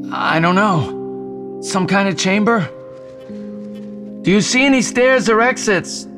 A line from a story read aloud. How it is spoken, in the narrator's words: Jason yelled